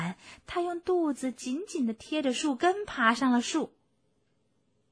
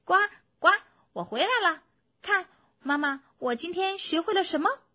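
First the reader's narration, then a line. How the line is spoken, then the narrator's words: Child calling out. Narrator (Chinese): 青蛙宝宝对青蛙妈妈喊道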